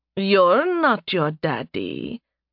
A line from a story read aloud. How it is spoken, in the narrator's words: Nerevia purred